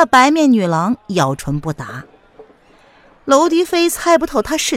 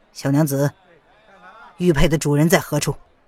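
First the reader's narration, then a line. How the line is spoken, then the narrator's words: Deep low voice. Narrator (Chinese): 娄迪飞沉声的道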